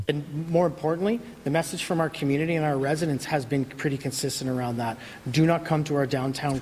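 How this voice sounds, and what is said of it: Speaks with a noticeable accent. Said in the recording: “Funny accent there.”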